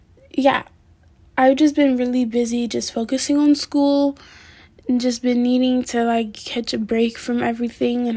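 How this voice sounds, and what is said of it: Tired-sounding voice. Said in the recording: “I sound a little tired, it's because I'm very, very tired ... I'm also very tired”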